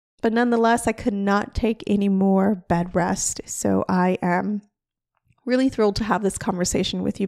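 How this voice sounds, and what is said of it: Unclear, sick-sounding voice. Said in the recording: “I have COVID as I am recording this episode, so my voice is not going to sound the most clear”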